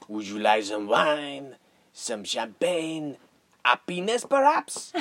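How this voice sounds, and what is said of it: Heavy put-on French accent. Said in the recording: “But with a heavy French accent. ... With a heavy French accent,”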